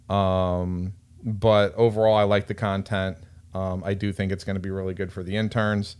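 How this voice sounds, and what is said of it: Flat, monotone speaking voice. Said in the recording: “very monotone, but everybody knows that I'm monotone,”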